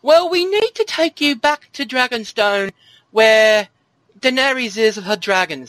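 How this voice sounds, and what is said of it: Badly done put-on accent. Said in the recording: “That's a terrible accent.”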